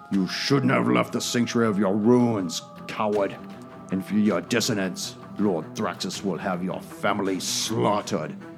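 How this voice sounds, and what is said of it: Guttural monster character voice. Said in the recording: “in this guttural voice,”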